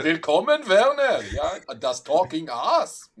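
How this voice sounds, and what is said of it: Put-on German accent. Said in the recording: “I would do the entire thing in a German accent.”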